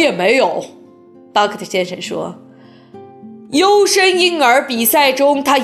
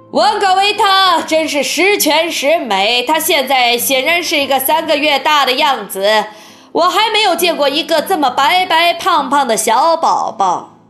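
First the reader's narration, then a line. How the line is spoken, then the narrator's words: Cheerful smiling exclamation. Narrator (Chinese): 沃克先生露出快活的微笑，叫道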